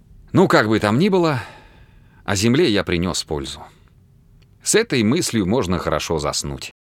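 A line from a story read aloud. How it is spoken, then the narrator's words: Sighing speech. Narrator (Russian): Дик вздохнув, произнес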